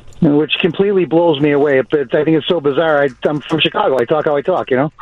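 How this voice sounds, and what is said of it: Strong Chicago accent. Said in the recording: “you have a strong Chicago accent”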